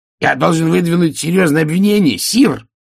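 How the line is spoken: Shouting out. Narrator (Russian): выкрикнул он

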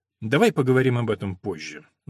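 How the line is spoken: Tired. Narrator (Russian): устало произнес доктор

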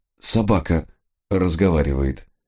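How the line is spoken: Very calm. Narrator (Russian): крайне спокойно ответил он

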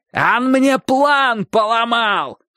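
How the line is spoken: Angry shouting. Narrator (Russian): кричал Собаколов

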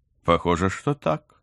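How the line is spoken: Carefree laughing. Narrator (Russian): беззаботно рассмеялся его друг

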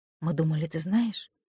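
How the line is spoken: Soft. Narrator (Russian): мягко сказала Цила

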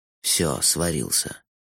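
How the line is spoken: Sighing. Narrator (Russian): вздохнул Лойса

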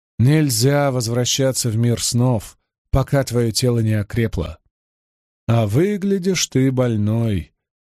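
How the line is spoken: Suffering tone. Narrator (Russian): заметила Бэйр со страдательным тоном

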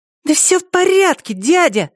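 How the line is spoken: Squeaky irritated teenager. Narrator (Russian): ответила она писклявым тоном раздраженного подростка

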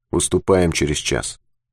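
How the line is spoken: Very quiet. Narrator (Russian): сказал очень тихо

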